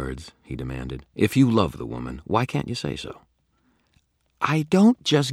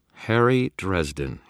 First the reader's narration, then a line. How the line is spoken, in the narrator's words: he said